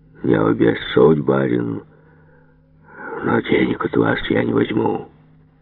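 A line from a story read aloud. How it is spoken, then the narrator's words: Old man's deathly drawl. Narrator (Russian): протянул старик, словно покойник, и говорит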